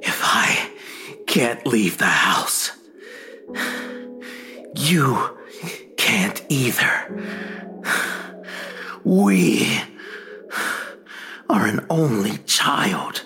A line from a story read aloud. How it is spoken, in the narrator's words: From the darkness, my companion whispers